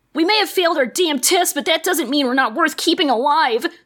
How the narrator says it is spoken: Scootaloo shouted in a flash of rage

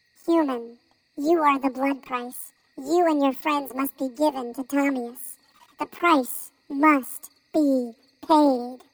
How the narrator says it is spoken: the spokesperson for the chipmunks squeaked angrily

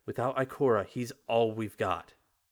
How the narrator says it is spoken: Anna exclaims

